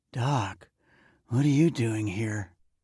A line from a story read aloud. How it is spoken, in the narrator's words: she asked, her voice thick and groggy with sleep